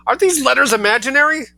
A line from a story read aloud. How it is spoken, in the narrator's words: screamed Mrs